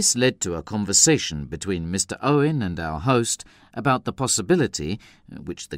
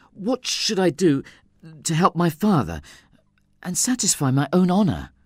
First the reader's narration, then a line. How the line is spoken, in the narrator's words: I anxiously asked him